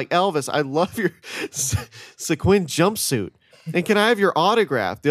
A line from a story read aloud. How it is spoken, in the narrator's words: The other friends were all shouting out ridiculous things